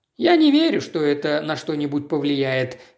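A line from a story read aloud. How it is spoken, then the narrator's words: Gloomy. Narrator (Russian): мрачно ответил сэр Джордж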